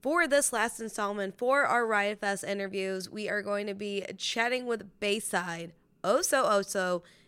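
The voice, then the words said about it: Slightly raspy voice. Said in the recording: “my voice is kind of back. So a little raspy”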